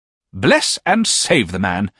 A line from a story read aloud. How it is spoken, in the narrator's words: exclaimed my aunt sharply